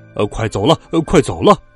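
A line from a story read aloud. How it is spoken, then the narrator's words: Stern shout. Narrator (Chinese): 一个男人板着脸喊道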